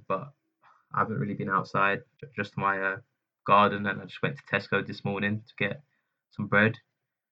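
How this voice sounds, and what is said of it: Slightly ill, sick-sounding voice. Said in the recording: “Maybe you can tell from my voice, I'm a little bit ill”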